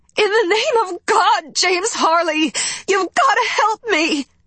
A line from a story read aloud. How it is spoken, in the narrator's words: the woman cried